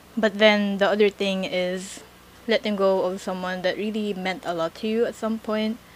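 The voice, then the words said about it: Fake British accent. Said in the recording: “my fake British accent ... I mimic other accents”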